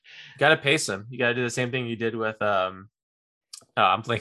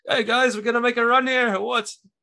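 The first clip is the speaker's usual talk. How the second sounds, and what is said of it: Poor Australian accent, sounds Scottish. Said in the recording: “if you could repeat that in Australian accent, maybe... I think that was Scottish. I'd go more Scottish on that accent... That wasn't a good Bogut impression... It's probably deeper too”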